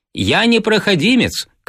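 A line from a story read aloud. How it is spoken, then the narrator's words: Shout. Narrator (Russian): крикнул я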